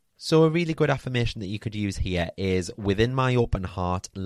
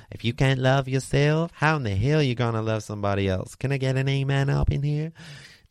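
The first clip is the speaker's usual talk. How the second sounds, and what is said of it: Put-on Texas accent. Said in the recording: “That's 2 Texas accents in 1 episode”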